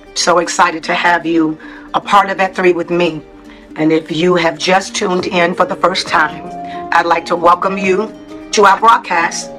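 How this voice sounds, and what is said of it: Voice sounds off, apologized for. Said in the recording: “Excuse my voice today”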